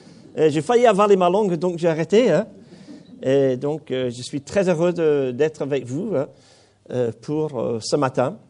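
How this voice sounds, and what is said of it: Slight accent in French. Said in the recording (French): “J'ai un petit accent, hein, ce n'est pas de ma faute. J'ai même pris des cours de diction pour perdre mon accent.”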